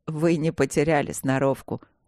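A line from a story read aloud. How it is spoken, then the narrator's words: Laughing. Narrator (Russian): засмеялся владелец клуба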